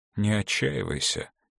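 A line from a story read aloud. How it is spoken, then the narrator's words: Quiet speech. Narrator (Russian): тихо сказал Мартин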